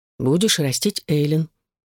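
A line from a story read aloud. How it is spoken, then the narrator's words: Slow. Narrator (Russian): медленно произнесла Эшлинг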